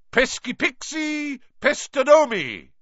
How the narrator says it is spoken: bellowed

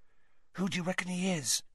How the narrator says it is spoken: Ron hissed

